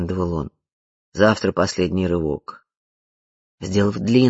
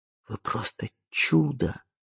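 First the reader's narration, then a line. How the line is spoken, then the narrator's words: Whisper. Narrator (Russian): прошептал он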